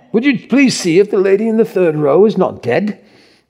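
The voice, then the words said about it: Put-on English accent. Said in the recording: “Is that a halfway decent English accent?”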